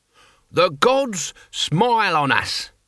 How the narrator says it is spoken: he bellowed

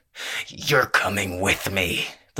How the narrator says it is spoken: the Reaper snarled

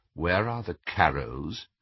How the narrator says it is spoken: he asked quietly

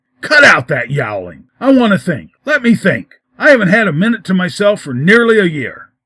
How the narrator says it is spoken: called out angrily

